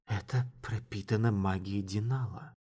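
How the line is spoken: Mutter, slightly livelier. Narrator (Russian): пробормотала, чуть оживившись

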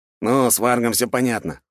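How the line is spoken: Wry snort. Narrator (Russian): хмыкнул Федя

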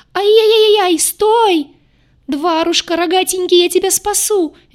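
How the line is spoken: Frantic shriek. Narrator (Russian): визжала полоумная девица

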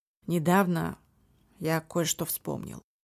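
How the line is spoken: Grim. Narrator (Russian): мрачно произнес он

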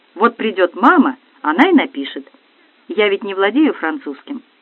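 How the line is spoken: Angry reply. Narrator (Russian): сердито ответила Марианна Максимовна

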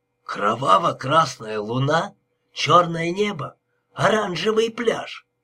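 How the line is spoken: Plain. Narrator (Russian): Так она сказала

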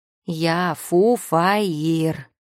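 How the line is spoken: Howl. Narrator (Russian): взвыл он

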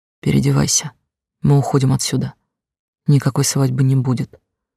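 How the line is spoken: Hoarse whisper in ear. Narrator (Russian): хрипло прошептал мне на ухо

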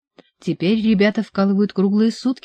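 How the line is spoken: Plain. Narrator (Russian): ответила она

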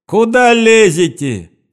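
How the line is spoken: Angry shout. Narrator (Russian): закричал он на стоявших в дверях

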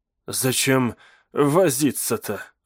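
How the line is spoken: Breathed out. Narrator (Russian): выдохнул он

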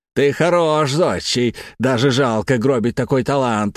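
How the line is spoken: Exclaiming. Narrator (Russian): воскликнул Игнатьев

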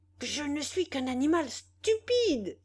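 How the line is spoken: Exclaiming. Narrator (French): s'écria-t-il

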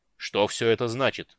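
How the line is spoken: Angry menacing growl. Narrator (Russian): грозно рыкнул гневно

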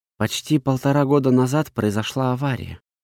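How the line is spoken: Quiet. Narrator (Russian): тихо проговорила она

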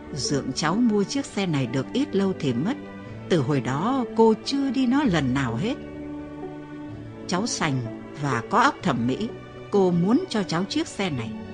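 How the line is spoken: Gentle, soft voice. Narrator (Vietnamese): Bằng một giọng êm đềm bà nói

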